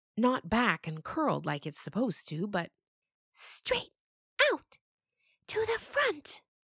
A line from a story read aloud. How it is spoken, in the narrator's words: Gotina whispered